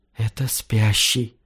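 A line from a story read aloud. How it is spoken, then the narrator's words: Whisper. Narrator (Russian): прошептала Мира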